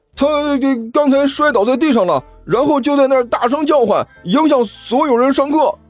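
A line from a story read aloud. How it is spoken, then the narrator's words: Hurried and loud. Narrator (Chinese): 傅晨连忙大声说道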